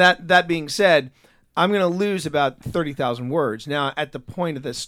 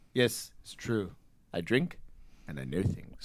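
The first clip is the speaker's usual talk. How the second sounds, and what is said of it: Peter Dinklage impression. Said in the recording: “I could probably do a better Peter Dinklage... I can do that impersonation”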